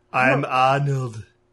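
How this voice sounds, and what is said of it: Poor Arnold Schwarzenegger-style impression. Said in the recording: “bad Arnold impersonation ... that wasn't like, good.”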